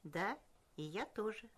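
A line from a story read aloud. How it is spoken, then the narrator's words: Plain. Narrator (Russian): сказал кузнец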